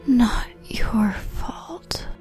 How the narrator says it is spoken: Hermione drew in another breath, and her lips whispered

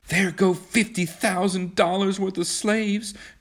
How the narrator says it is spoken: cried Kismine

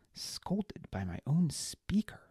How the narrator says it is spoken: he muttered

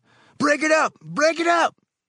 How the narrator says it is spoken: Someone up the street in the dark yelled

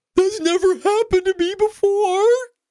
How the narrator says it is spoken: my 7-year-old, through tears and sobs, says

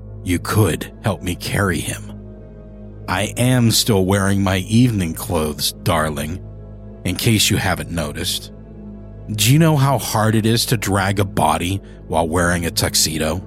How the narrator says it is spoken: He clipped the ends of his words, his voice gravelly in his irritation

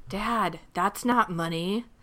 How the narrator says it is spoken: not thinking she could hear me, whispered

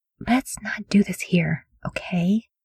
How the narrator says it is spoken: She murmured to Cole

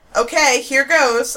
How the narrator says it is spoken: Sean yell

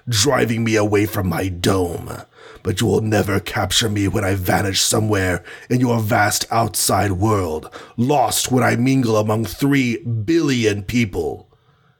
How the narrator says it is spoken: snarled

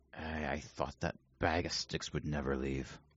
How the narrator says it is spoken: him sort of mumble under his breath

